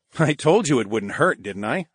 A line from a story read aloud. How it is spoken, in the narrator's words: I chuckled